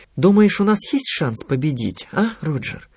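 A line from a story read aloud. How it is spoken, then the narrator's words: Thoughtful question. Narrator (Russian): спросила Анита задумчиво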